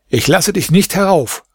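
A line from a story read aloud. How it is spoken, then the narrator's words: Calling out. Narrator (German): rief er ihm zu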